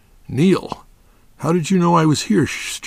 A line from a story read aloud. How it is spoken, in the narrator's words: Johnson asked